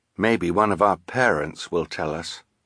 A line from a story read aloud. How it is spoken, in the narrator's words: Klaus said quietly